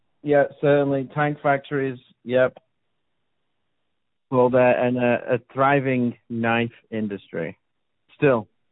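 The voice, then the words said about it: Northern English accent. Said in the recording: “your accent certainly doesn't sound very American ... born and raised in Northern England”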